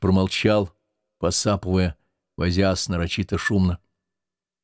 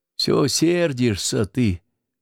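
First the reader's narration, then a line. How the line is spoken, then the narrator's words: Sighing. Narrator (Russian): вздохнула Наталья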